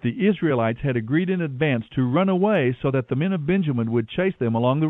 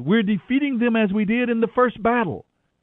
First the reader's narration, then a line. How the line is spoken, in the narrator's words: the warriors of Benjamin shouted